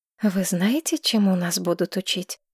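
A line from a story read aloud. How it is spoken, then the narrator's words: Quiet question. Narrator (Russian): негромко спросила Маргарет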